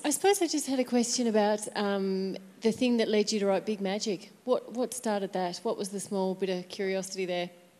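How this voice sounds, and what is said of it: Australian accent, fast speech. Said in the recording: “your beautiful accent ... talk really fucking fast ... I'm actually Australian”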